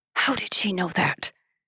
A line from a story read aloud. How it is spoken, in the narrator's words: A sharp intake of air, and another captor whispered